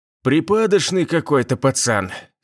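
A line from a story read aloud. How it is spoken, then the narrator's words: Scoffing snort. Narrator (Russian): сержант хмыкнул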